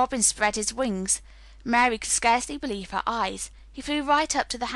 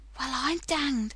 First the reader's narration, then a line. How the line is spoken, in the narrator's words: he said, as softly as if he were saying something quite different